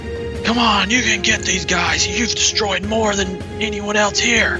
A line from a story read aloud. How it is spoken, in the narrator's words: He shouts at this Kasathan in front of him and says